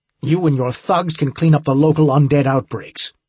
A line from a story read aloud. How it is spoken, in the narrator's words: Myers snapped